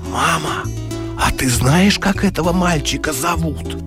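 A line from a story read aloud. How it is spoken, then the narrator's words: Whisper, child. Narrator (Russian): шепотом говорит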